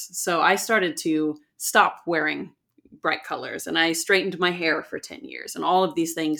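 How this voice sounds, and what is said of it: American accent. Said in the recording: “an American accent comes out”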